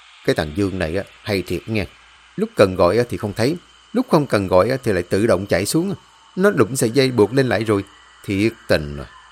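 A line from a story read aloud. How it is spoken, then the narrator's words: Old man muttering. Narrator (Vietnamese): Ông lẩm bẩm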